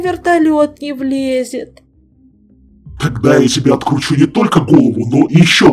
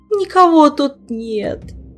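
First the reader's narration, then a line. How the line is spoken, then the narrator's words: Dejected, glum. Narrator (Russian): уныло излагал ответственный спасатель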